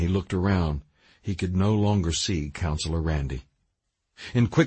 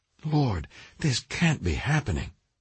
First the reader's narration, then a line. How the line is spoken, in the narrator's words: Russ cried out under his breath